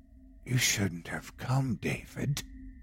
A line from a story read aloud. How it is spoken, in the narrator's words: The form was now right at my back, whispering into my ear